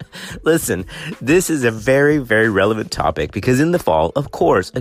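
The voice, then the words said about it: Sick-sounding voice. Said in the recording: “as you can hear by my voice, I've got it... I've got some viral illness. I've got bronchitis.”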